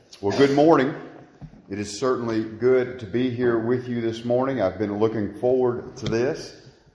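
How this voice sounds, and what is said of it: Kentucky regional accent. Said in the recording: “you may have already picked up on my accent. I'm originally from Butler County, Kentucky”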